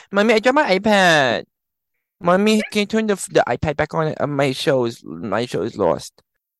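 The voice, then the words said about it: Little kid voice. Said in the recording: “I sound like a little kid.”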